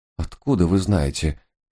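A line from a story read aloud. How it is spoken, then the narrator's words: Moaning. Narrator (Russian): простонал несчастный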